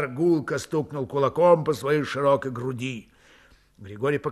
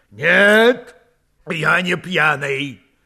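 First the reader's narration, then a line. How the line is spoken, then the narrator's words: Loud tipsy shout. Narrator (Russian): громко выкрикнул подгулявший батареец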